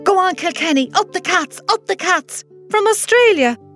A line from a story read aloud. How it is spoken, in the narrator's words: she shouted down the phone to me